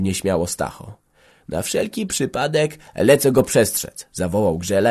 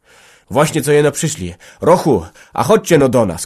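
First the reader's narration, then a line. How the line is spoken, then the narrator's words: Shouted. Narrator (Polish): krzyknął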